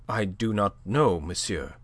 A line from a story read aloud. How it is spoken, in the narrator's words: she said, her voice unsteady